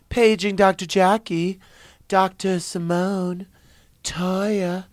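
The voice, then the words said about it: Imitates a TV show opening voice. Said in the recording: “That is my impression of the Married to Medicine show open.”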